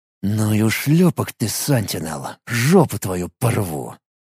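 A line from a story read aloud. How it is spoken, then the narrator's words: Angry, through clenched teeth. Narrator (Russian): Процедил сквозь сжатые от злости зубы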